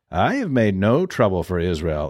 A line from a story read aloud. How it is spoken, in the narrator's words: Elijah replied